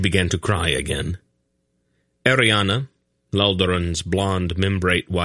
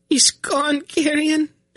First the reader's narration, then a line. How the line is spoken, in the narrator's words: she wailed